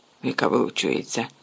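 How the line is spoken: Mutter. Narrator (Ukrainian): пробурмотів Рон

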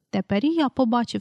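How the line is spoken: Plain. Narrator (Ukrainian): сказав Пітер

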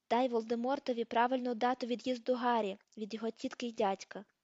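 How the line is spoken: Plain. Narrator (Ukrainian): сказав Дамблдор

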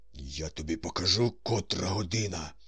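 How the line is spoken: Hissed. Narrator (Ukrainian): шипів Корейко

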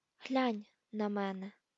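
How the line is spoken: Whisper. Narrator (Ukrainian): прошепотів він

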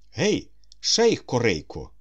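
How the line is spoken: Exclaimed. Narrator (Ukrainian): вигукнув Остап

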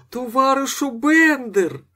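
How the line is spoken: Delighted shout, widow. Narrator (Ukrainian): закричала вдова захоплено

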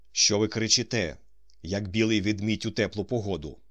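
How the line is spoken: Stern. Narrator (Ukrainian): суворо сказав Остап

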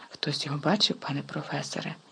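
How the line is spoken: Whisper. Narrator (Ukrainian): прошепотів Персі

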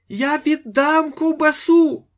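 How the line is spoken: Shouted. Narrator (Ukrainian): закричав панатець Федір

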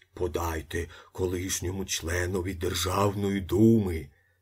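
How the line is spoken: Muttering. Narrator (Ukrainian): бурмотів предводитель

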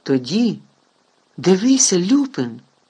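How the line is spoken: Exclaimed. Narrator (Ukrainian): вигукнув Гаррі

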